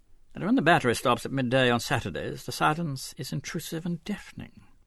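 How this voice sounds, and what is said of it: English accent. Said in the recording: “The English accent was clearly discernible ... the English voice”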